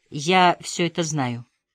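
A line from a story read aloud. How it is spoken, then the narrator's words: Dry. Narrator (Russian): кивнула сухо Алена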